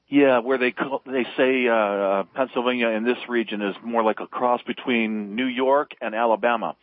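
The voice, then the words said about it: Pennsylvania accent. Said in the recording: “I hear the Pennsylvania accent”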